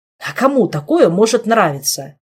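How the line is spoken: Irritated interruption. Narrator (Russian): раздраженно перебил Шилар

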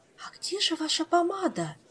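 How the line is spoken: Shocked whisper. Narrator (Russian): потрясенным шепотом поинтересовалась она

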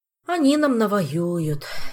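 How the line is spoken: Sad sigh. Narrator (Russian): печально вздохнул товарищ Пассионарио

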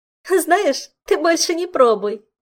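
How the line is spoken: Giggle. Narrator (Russian): хихикнула Саша

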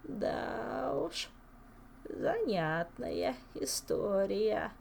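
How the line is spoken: Old man's drawl. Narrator (Russian): протянул старичок

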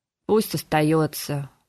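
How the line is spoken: Gloomy, curt. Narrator (Russian): мрачно бросил мэтр Максимилиана

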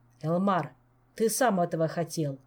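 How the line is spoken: Sharp. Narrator (Russian): резко сказал король

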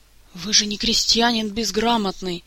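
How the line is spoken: Angry whispered scolding. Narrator (Russian): гневным шепотом отчитывал кого-то придворный маг

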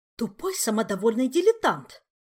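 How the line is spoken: Indignant hiss. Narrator (Russian): возмущенно прошипела психолог в закрытую дверь

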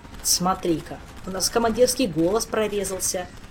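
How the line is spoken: Snapping retort. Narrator (Russian): Огрызнулся Кантор, чтобы не признавать вслух, что предводитель прав

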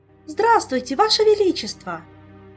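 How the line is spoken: Joyful exclamation. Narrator (Russian): Радостно воскликнула Ольга

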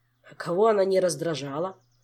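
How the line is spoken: Scoffing grunt. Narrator (Russian): хмыкнул Кантор

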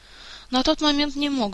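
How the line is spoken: Sighing. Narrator (Russian): вздохнул Мафей

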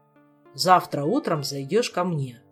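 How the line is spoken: Calm and serious. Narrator (Russian): спокойно и серьезно сказал

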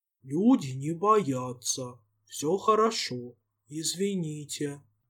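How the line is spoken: Booming hoarse voice. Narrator (Russian): гулким простуженным голосом произнесла

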